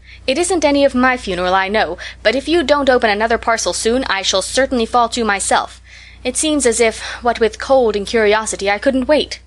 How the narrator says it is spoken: she cried

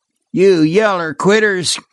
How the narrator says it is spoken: groaned Joe

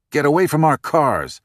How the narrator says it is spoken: the woman snapped

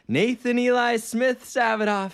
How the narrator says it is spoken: my mom yelled softly from the porch

